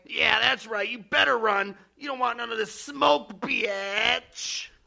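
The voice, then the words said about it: Talking like a teenager. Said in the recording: “talking like a stupid teenager”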